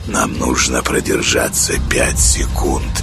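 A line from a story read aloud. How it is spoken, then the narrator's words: Whispered. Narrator (Russian): прошептал Павел Павлович Сане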